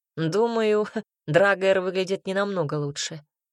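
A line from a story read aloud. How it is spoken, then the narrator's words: Wry snort. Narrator (Russian): хмыкнул Альберт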